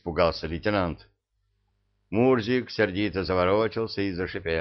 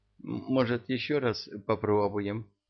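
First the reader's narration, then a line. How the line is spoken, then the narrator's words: Uncertain question. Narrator (Russian): неуверенно спросила Жасмин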